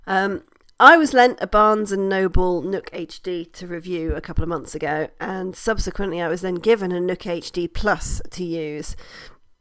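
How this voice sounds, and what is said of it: Hoarse, fading voice. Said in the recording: “I apologise in advance for my voice. I think I'm going down with something and I'm losing my voice a bit.”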